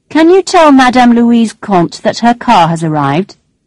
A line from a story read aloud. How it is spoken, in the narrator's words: said the driver